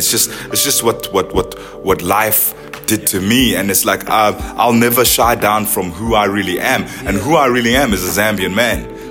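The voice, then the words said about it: British accent. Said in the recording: “I grew up British. You know, I got a bit of a twang”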